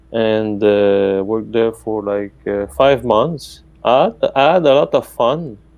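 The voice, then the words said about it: Italian-accented English. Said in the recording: “sometimes people tell me that I have an Italian accent.”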